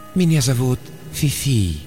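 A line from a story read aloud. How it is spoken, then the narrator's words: Purring. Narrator (Russian): промурлыкал компьютер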